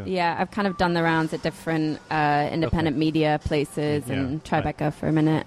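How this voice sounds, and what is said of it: Slight Manchester English accent. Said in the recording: “a trace of an accent ... I am from Manchester.”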